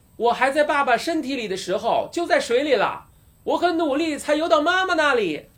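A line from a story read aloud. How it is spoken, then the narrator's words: Sputtering shout. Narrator (Chinese): 大巴猛地吐了一大口水，喊道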